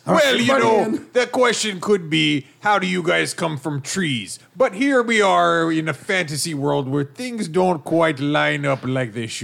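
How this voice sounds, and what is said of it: Pirate accent. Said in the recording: “how'd you get that pirate accent? ... we have a kind of drunkish sailor accents”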